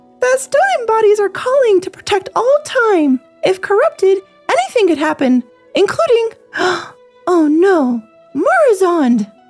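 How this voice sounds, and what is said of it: Female gnome character voice. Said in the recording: “try to do the Chromie voice because I'm actually pretty good at a female gnome voice ... it's horrible”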